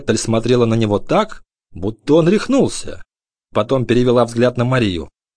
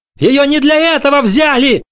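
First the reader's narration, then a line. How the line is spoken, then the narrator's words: Yelling. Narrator (Russian): орал Бруно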